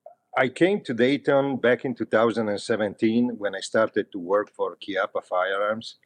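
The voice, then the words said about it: Italian accent. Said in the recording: “I am from Italy. As you can hear, I wasn't born in Dayton. You can clearly pick it up from my accent.”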